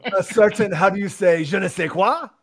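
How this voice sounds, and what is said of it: Mock French accent. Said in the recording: “Now that we've insulted the entire nation of France ... That's an accent you can make fun of and not get in trouble.”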